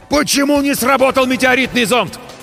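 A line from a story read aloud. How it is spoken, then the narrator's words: Shouted in unison. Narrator (Russian): В один голос заорали мы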